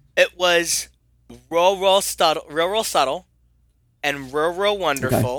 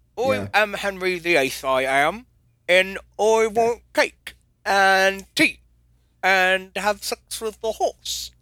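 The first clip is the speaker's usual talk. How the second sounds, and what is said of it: Bad put-on British accent. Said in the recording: “How bad that accent was? ... I maybe don't do a British impression for a good reason”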